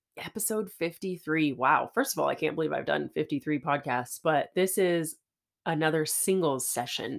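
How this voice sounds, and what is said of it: Nasal voice from a cold. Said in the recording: “I still have a little bit of this summer cold going on. So again, if I sound nasally”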